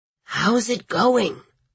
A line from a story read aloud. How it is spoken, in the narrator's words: Lawrence Stage whispered, as though they were in a crypt